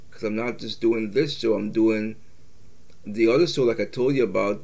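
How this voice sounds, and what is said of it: Worn-out, strained voice. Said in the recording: “my voice is pretty much shot because I've done multiple different shows”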